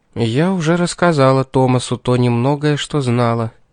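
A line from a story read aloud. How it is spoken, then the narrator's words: Sad sigh. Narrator (Russian): печально вздохнула Кэролайн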